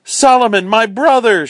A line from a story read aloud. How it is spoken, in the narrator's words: cried